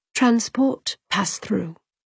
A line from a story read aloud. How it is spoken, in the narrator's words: She murmured